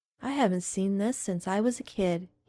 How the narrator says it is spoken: he said, sighing

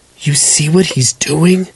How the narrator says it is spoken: James whispered in Hitomi's ears

